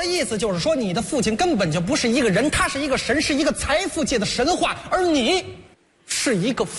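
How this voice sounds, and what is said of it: Usual voice. Nothing is said of it.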